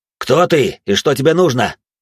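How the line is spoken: Growled. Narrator (Russian): прорычал я

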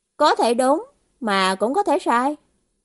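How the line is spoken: Smiling. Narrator (Vietnamese): Hồ Duyệt mỉm cười, bảo

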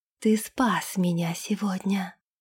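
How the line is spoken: Whispering. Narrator (Russian): прошептала она

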